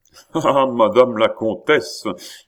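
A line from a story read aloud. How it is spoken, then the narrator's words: Frank, natural laughter. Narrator (French): dit le chancelier en riant d'un rire qui étonna de plus en plus la vieille plaideuse, tant il avait l'air franc et naturel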